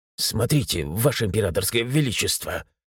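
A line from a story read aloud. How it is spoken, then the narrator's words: Whispered. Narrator (Russian): прошептал генерал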